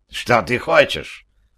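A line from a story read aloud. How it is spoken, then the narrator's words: Spiteful, hateful question. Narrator (Russian): спросил главный, злобно сверкая глазками и от ненависти сжимая кулаки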